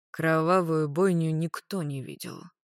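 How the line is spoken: Sighing. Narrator (Russian): вздохнул Магарыч

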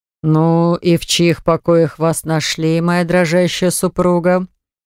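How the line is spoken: Mesmerizing voice. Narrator (Russian): спросил он невероятно завораживающим голосом

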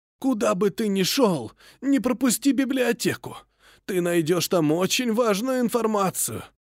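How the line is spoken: Hoarse, wheezing reply. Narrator (Russian): прохрипел в ответ мой весьма необычный собеседник

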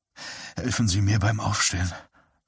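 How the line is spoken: Murmur. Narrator (German): murmelte

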